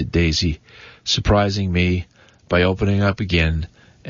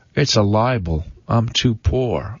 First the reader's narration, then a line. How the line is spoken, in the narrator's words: answered